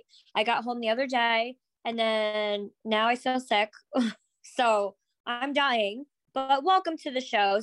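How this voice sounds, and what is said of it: Hoarse, strained, nearly lost voice. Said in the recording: “If you can't tell from my voice, I've been screaming for like 3 days straight... now I lost my voice”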